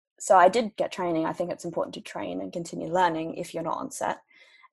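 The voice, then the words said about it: Australian accent with British lilt. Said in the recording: “you are Australian, you do have a kind of a British lilt about the way that you speak sometimes ... a little bit more prominent, like when I say pasta or bath ... You do sound more British. You do, yeah, distinctly”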